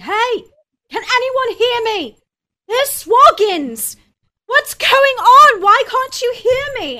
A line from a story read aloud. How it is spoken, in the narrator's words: screaming